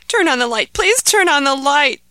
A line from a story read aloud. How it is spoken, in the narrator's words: begged Ahmed